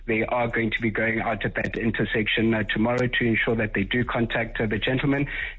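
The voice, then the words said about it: Accent typical of an elite private school. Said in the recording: “went to Michael House. I can tell by that accent.”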